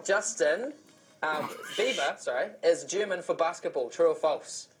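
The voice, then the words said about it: New Zealand accent. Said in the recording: “that's the Kiwi accent going on there.”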